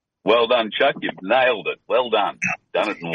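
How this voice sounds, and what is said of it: Powerful radio voice, Australian accent. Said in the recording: “great radio voice, powerful one. You'll notice the accent because he is a friend from Oceania ... employed by the same radio station in Australia”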